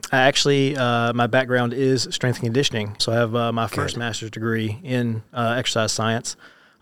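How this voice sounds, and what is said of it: Slight southern twang. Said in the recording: “I'm originally from Georgia, so if there's a little southern twang, there's that.”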